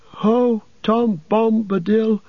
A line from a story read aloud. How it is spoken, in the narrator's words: with that name his voice seemed to grow strong